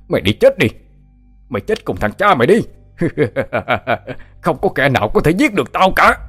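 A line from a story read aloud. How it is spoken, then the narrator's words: Violent shout. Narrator (Vietnamese): A Kim hét lên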